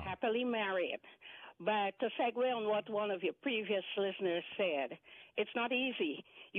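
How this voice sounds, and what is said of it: Guyanese Caribbean-sounding accent. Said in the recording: “is that an island accent I'm picking up or what? ... it's not island, but it's a former British colony ... Guyana”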